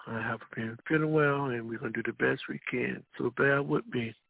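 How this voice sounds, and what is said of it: Weak voice from being unwell. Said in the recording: “my voice sounds a little weak, it's because um, I'm a little bit under the weather.”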